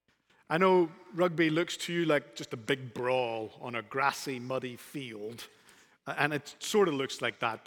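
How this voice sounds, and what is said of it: Speaks with a brogue. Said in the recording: “I talk funny as I teach the scriptures ... my brogue”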